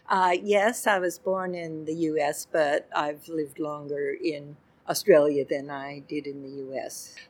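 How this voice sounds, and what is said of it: Slight American accent. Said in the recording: “I detect the hint of an accent. So you've come from over the seas?”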